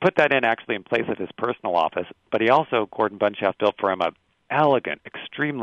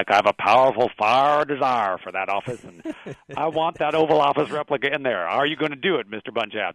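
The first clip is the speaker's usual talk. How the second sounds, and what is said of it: Attempted Texas accent impression. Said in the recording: “I'm not quite getting it right, and I can't quite do the Texas accent”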